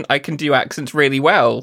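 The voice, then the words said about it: Sarcastic delivery. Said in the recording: “I say sarcastically.”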